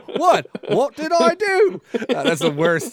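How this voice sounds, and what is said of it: Poor put-on British accent. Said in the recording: “That's just a stupid British accent. It's not William Regal at all.”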